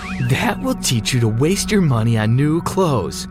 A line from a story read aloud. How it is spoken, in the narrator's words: said, laughing